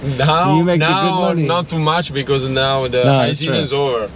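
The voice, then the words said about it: Strong Italian accent. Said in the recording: “you're from Italy and your accent is really strong”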